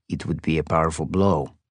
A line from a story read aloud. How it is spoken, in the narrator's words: Abraham said softly